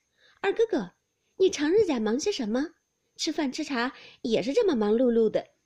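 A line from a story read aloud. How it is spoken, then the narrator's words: Laughing together. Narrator (Chinese): 探春、惜春都笑道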